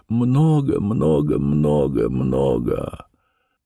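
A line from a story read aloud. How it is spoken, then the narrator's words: Sobbing repetition. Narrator (Russian): Она повторяла это слово, рыдая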